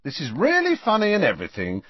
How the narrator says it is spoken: said Harry impatiently

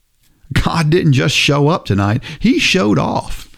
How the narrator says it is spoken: Frank exclaimed

